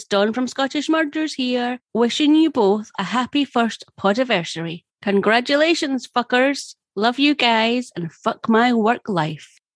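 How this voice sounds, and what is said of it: Non-American accent. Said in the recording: “That accent is so fucking awesome ... my fucking shitty American accent”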